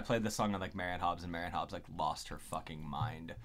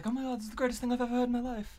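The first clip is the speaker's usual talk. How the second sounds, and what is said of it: Bad Marianne Hobbs impression. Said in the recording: “worst Marianne Hobbs impression ever”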